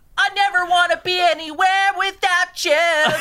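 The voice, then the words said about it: Yelled pop-punk singing imitation. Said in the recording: “You sing like the guy from Sum 41, Blink 182 ... he yells ... He yells a little bit ... you sing all the time like him”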